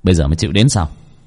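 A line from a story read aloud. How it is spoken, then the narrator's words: Smiling. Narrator (Vietnamese): Bác cổ mỉm cười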